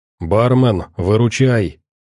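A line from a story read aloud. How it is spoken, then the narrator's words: Quiet. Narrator (Russian): негромко сказал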